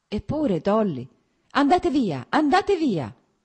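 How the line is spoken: Pained cry. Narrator (Italian): gridò come se questo grido fosse provocato da un male fisico

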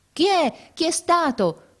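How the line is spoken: Crowd shouting. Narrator (Italian): continuava a gridare la gente

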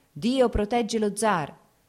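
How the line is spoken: Shouting. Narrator (Italian): si udirono grida di

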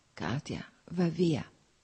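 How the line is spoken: Whispering. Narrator (Italian): sussurrò ancora

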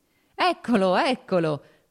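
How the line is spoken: Laughing. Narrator (Italian): disse ridendo Serpuchovskoj

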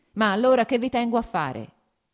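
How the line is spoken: Shout. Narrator (Italian): gridò

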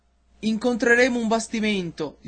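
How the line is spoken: Sailors shouting. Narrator (Italian): gli gridarono i marinai

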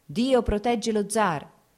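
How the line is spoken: Shouts heard. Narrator (Italian): si udirono grida di

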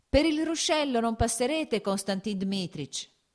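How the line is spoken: Shouting. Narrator (Italian): gridò il garzone

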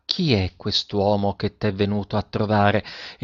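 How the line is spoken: Smiling, low voice. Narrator (Italian): La maestra sorrise e disse a bassa voce

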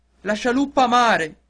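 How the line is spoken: Shouted. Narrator (Italian): gridò il capitano

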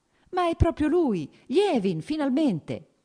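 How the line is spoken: Smiling, cordially teasing exclamation. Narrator (Italian): esclamò con un sorriso cordialmente canzonatorio

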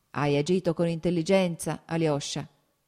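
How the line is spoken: Loud baritone voice. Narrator (Italian): disse il capitano con una forte voce baritonale

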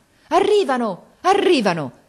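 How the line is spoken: Joyful shout. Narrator (Italian): ripeté con un grido di gioia il capitano

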